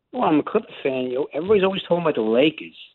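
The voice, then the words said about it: East Coast New York accent. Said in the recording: “your accent. You're not from California. You're from the East Coast, either New York or New Jersey... You sound like it.”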